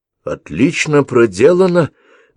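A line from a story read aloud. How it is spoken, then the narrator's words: Exclamation. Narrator (Russian): воскликнула Ингегерд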